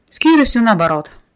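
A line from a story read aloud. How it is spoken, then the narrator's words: Resigned sigh. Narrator (Russian): обреченно вздохнул Рис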